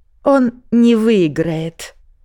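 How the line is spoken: Angry curt retort. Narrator (Russian): Зло отрезали из-за опущенного стекла

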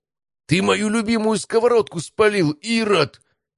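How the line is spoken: Loud hysterical shout. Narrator (Russian): истеричным голосом оповестил всю округу

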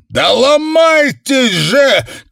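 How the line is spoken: Shouted. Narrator (Russian): крикнул

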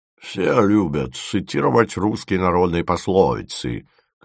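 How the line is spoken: Embarrassed muttering. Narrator (Russian): конфузливо бормотал он

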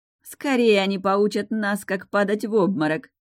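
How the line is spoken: Loud young woman. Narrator (Russian): громко произнесла еще одна девушка

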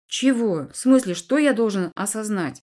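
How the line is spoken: Skeptical snort. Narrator (Russian): недоверчиво хмыкнул Эдви

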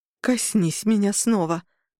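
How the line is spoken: Breathless. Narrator (Russian): выдохнула она

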